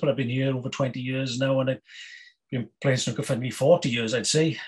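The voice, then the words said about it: Welsh accent. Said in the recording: “You can tell by my accent there, I'm from Wales”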